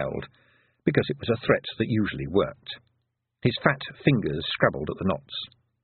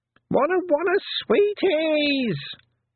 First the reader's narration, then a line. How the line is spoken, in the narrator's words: screamed Wentworth, who never noticed anything else in the presence of sweets